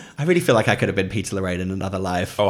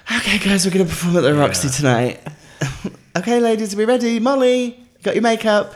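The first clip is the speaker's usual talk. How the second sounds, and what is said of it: Breathy, exhaled imitation of another man. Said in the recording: “That was a really good impression. ... everything he says is exhaled.”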